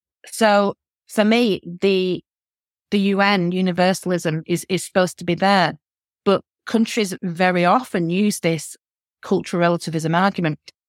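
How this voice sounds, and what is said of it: Northern English accent. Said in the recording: “I'm a northerner, my accent, you can tell.”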